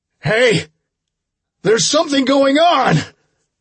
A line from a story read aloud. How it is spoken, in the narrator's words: I bellowed at the top of my lungs